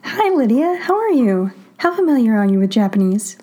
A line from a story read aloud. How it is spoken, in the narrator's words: Lydia asks urgently